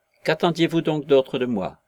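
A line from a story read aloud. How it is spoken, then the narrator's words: Desperate exclamation. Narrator (French): s'écria-t-il, comme un homme poussé tout à coup au désespoir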